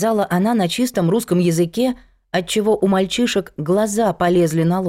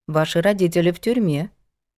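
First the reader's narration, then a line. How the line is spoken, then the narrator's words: Calm matter-of-fact woman. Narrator (Russian): проговорила женщина спокойно, словно сообщала не столь ужасную новость, а читала прогноз погоды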